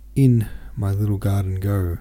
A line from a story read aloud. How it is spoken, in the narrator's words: said Hanno, mumblingly